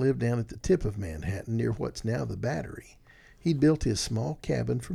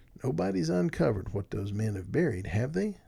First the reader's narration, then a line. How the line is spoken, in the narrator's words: Wolfert asked